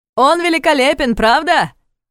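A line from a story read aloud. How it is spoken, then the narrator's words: Loud shout in ear. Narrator (Russian): громко прокричал Томас на ухо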